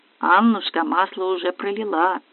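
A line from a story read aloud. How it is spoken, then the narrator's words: Muttering son-in-law. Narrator (Russian): зятек бормотнул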